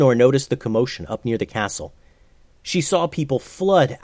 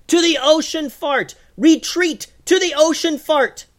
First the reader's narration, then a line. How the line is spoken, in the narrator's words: yelled